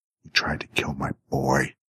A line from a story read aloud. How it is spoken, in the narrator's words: she hissed